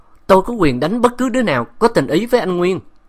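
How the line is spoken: Roaring. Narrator (Vietnamese): Bạch Yến gầm lên

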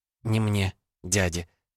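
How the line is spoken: Angry, through gritted teeth. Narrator (Russian): процедила иллюзионистка со злостью

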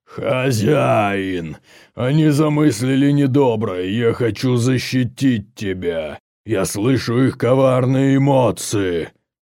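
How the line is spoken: Menacing growl, then speech. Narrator (Russian): грозно зарычал, а затем сказал

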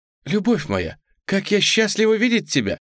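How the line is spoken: Joyful exclamation. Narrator (Russian): воскликнула Тьюлип

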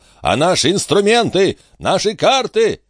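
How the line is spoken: Shouting. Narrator (Russian): дядюшка Антифер закричал

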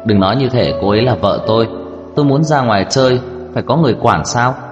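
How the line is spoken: Cold sneering smile. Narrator (Vietnamese): Giật Tôn nhướng mày cười nhạt

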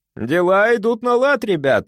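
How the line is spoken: Cheerful. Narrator (Russian): весело сказал я

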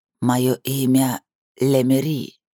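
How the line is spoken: Old woman's wheeze. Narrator (Russian): прохрипела старуха

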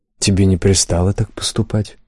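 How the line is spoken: Gentle warning. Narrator (Russian): мягко предупредил он

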